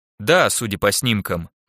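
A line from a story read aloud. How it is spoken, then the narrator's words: Plain. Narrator (Russian): ответила Фрида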